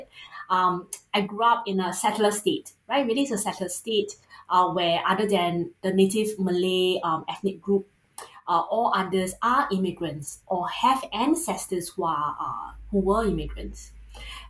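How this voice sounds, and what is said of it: Singaporean English accent. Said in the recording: “You might be able to tell from the accent as a Singaporean, you can't run from it.”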